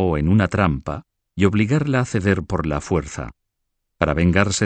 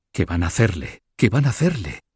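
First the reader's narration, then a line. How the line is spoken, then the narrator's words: Murmur. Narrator (Spanish): murmuró Beatriz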